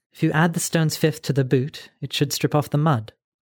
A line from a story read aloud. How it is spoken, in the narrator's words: Nell said